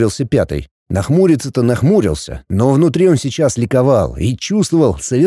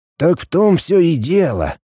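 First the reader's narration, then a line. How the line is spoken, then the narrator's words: Sighing. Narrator (Russian): вздохнул Игнат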